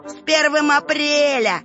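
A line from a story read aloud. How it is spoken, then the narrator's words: Bursting out laughing. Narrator (Russian): расхохотался Павлик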